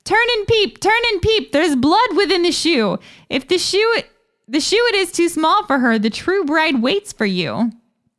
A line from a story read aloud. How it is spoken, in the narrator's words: two pigeons and cried